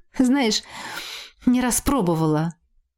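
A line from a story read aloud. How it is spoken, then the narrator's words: Short laugh, woman. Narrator (Russian): хохотнула сестра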